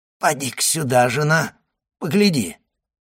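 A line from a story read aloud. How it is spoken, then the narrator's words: Hoarse voice. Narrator (Russian): проговорил он хриплым голосом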